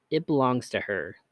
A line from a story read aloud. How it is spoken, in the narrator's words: the man said